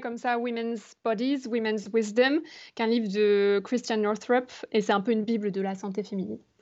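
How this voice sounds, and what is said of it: English accent on English words. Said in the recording (French): “on sent un peu l'accent anglais”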